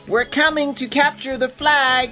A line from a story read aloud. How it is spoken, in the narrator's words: Crispin called out loudly